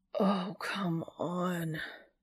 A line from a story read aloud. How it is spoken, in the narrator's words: Dean whines